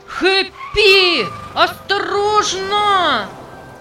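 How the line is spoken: Terrified shout. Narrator (Russian): В ужасе закричал Джек

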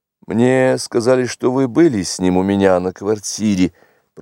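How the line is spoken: Embarrassed mutter. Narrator (Russian): пробормотал я в смущении

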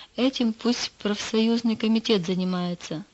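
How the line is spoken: Plain. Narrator (Russian): ответила Галина

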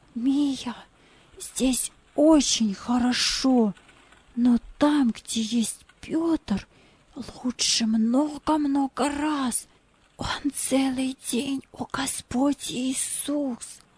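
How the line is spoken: Whisper in the ear. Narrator (Russian): Джузеппе прошептал ей на ухо

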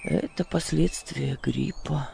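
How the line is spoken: Male mutter. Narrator (Russian): пробормотал он

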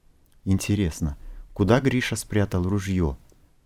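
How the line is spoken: Whisper. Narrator (Russian): прошептал Лука

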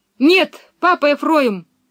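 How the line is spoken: Sudden exclamation. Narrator (Russian): воскликнул вдруг Пеппи

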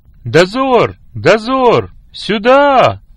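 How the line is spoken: Commanding shout. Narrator (Russian): повелительно закричал Андрей

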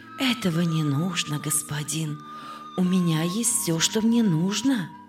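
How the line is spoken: Plain. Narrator (Russian): ответила Анна

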